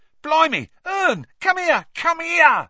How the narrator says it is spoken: Stan shouted

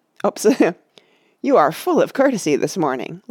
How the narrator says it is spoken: laughed Legolas

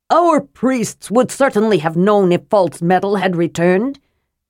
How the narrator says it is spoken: Nys said scornfully

